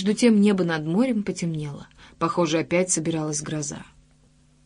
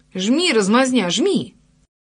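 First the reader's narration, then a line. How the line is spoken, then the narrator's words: Shouted. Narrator (Russian): крикнула ему Джулия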